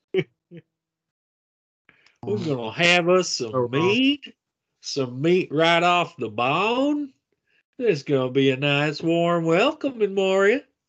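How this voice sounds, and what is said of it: Deep Georgian Southern US accent. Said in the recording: “I really want to hear Gimli as a dwarf with a deep Georgian accent.”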